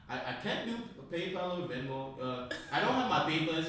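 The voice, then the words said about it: Put-on Nigerian accent. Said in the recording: “in Nigerian accent”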